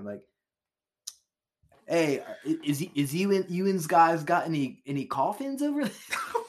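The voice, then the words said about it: Put-on white Baltimore accent. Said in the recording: “We could try to Baltimore up the accent. ... I think you're doing white B-more.”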